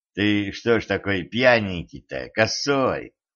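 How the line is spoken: Affectionate question. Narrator (Russian): ласково спросил Дэн

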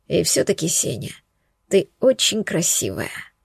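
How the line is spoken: Soft, gentle. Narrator (Russian): сказал мягко Волгин

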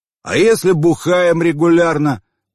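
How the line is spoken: Shout amid laughter. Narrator (Russian): крикнул кто-то из задних рядов под общий хохот

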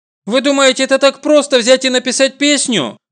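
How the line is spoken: Indignant exclamation. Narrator (Russian): Возмущенно восклицаю я

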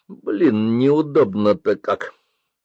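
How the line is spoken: Grumbling. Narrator (Russian): ворчал Денис

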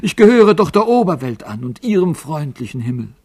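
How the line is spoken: Calling out. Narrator (German): rief er dem Alten zu

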